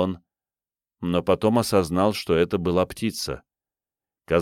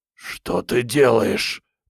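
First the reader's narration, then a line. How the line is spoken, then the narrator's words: Hoarse wheeze. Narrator (Russian): прохрипел Крейг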